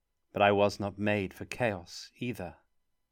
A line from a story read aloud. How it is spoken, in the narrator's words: said softly